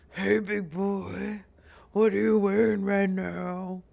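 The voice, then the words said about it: Seductive, sultry voice. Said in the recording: “Can I hear your sexy voice? ... my sexy”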